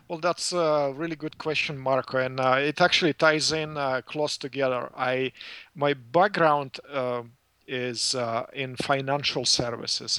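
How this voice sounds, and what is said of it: Non-native, Eastern European English accent. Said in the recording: “as you can hear from my accent, I'm not from here ... from uh, former Soviet Union”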